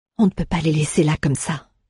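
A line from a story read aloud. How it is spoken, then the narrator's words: Whisper. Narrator (French): chuchota Alea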